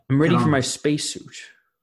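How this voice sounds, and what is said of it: Bad impression of another person's voice. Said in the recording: “That was a bad impression.”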